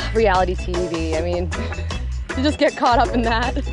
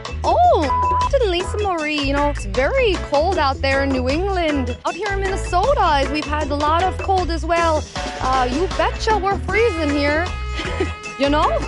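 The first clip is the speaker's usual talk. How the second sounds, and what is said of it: Put-on Minnesotan accent. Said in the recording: “I could do a Minnesotan accent really well”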